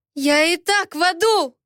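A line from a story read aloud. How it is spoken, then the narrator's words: Shouted in his face. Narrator (Russian): закричала ему в лицо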